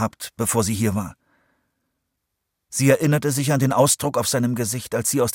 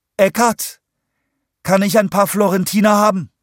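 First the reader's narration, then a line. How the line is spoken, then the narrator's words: Calling out. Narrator (German): rief sie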